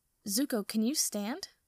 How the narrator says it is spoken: Aang asks, and his voice is worried

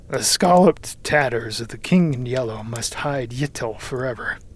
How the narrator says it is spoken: he muttered

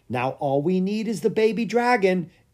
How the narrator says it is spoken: exclaimed Lucas

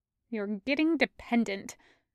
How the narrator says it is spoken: muttered hideous jacket beneath his hands

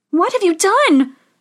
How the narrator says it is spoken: cried Snow White

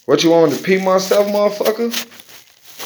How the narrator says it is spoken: Corey laughed

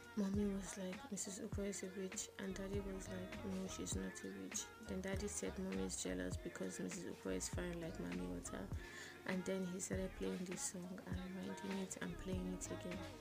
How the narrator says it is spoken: She cupped my ear and whispered

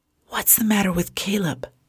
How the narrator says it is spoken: Tom whispered to Jennifer

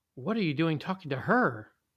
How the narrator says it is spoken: a marigold said in an appalled sort of tone

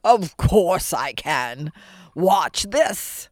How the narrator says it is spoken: The ogre bellowed

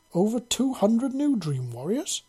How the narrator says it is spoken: she exclaimed

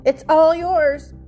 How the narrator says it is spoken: Harvey yelled

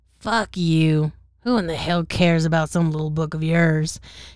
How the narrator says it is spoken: spat back

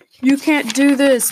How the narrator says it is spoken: Bourne screamed

